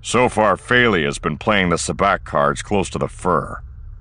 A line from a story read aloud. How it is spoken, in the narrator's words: Han growled